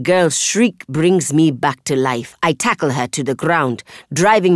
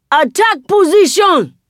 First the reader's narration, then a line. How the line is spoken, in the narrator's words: A Magi yells